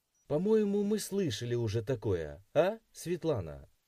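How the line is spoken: Cheerful. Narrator (Russian): Весело взглянул доктор

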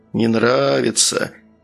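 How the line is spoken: Snide mutter. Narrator (Russian): ехидно пробормотал он

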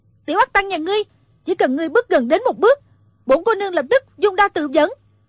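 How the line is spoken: Startled shout. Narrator (Vietnamese): Thủy Sinh giật mình, quát lên

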